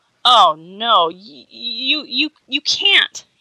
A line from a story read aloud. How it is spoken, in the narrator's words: stammered